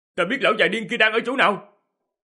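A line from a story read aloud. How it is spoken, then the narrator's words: Loud shout from behind. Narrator (Vietnamese): Diệp Hàm ở phía sau hét lớn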